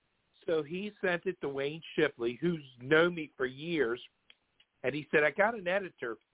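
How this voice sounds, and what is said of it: Baltimore accent. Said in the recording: “the Baltimore accent. I hope you have a filter on to get that out for your show.”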